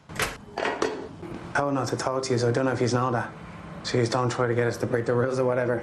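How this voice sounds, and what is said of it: Dublin accent. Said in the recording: “he sounds a little bit different in this ... what part of Dublin did you grow up in? What an extraordinary accent you got there.”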